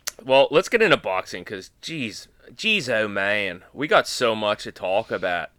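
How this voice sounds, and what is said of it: Put-on Pittsburgh accent. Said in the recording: “that was a Pittsburgh accent”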